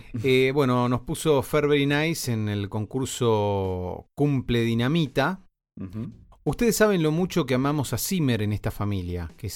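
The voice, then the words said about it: Announcer-style radio voice. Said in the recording (Spanish): “vos con tu voz de locutor”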